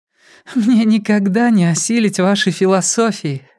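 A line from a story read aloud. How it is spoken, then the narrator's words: Laughing to tears. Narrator (Russian): рассмеялась Си Цзы, утирая слезы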